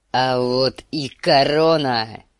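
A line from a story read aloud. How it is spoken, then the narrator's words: Roared. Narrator (Russian): взревел он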